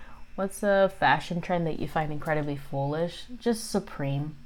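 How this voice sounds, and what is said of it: Usual voice. Nothing is said of it.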